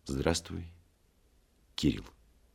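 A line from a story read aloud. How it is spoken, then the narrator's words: Said quietly after pause. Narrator (Russian): тихо сказал, помолчав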